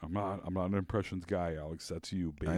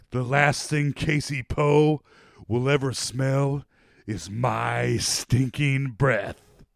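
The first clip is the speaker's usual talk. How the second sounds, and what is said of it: Dramatic, poor celebrity impression. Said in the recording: “Not a good John Malkovich impression. Just me speaking dramatically.”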